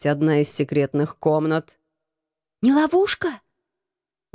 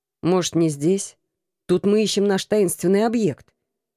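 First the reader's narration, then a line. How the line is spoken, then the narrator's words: Grumble. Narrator (Russian): проворчал Алекс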